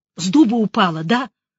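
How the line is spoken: Hissed. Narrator (Russian): прошипел

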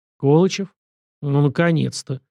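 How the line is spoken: Gruff mutter. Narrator (Russian): буркнул он

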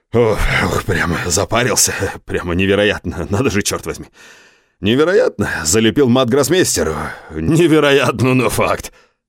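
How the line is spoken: Loud laughter. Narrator (Russian): захохотал

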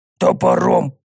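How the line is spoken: Angry agreement. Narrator (Russian): Зло поддакнул Тикса

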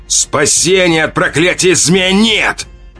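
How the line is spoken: Roaring, echoing shout. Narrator (Russian): Взревел он, и его крик эхом отразился от стволов вековых деревьев

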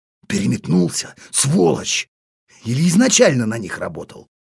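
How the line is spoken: Inner groan, marine. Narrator (Russian): Морской пехотинец мысленно застонал

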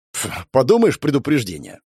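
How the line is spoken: Scoffing snort. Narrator (Russian): фыркнул Родя

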